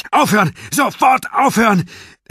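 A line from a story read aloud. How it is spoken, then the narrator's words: Roaring. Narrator (German): brüllte ich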